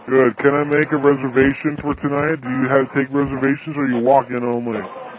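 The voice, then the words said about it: Fake deep man voice. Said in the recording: “we're using the fake man voice ... We're using the deep voice”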